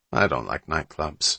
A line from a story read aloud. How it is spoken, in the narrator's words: said Hatch